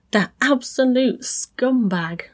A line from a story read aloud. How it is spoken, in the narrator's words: C groaned